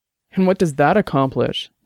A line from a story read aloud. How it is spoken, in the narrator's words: Dex asked bitterly